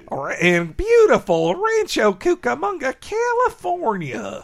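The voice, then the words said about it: Put-on California gold character voice. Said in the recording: “I love doing the California gold voice. ... I'm just stealing from James Adomian”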